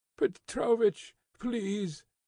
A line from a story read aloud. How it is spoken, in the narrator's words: said Akaky Akakievich in a beseeching tone